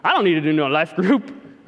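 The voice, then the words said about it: Put-on Texas accent. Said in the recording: “I just spoke in a Texas accent”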